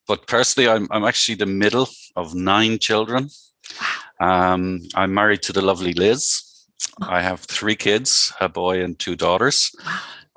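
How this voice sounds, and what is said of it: Non-American accent. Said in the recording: “my accent will probably betray the fact that I'm not local to the US”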